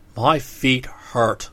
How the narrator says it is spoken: grumbled the orc

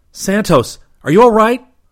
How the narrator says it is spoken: Rip yelled

